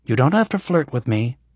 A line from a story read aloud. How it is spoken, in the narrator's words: Kasara said calmly